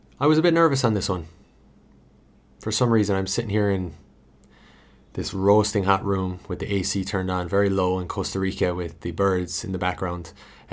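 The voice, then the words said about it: Hybrid American-Irish accent. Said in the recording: “with the hybrid American-Irish accent”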